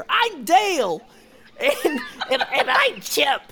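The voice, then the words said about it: Cartoon chipmunk character voices. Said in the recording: “That's my impression ... Was that an impression? I thought you had paid the voice actors to come in.”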